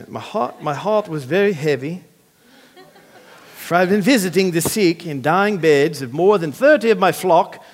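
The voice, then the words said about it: Attempted Australian accent. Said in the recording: “Maybe I should do it in an Australian accent. ... Next time I'll practice”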